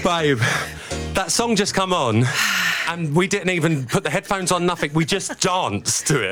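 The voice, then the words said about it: Breathless, out of breath. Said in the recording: “I'm so out of breath.”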